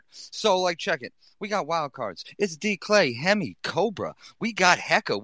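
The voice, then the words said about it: Boston accent. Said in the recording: “I won't even flex my Boston accent too heavy”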